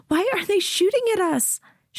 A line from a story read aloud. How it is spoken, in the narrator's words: Shay asks, her voice shrill